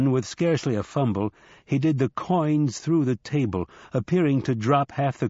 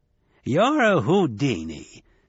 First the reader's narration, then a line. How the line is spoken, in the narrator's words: cackled Hinselman in delight